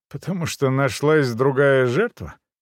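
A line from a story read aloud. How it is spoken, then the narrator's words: Forced snort. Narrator (Russian): делано хмыкнул я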